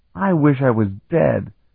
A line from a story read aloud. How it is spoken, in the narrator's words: Talon groaned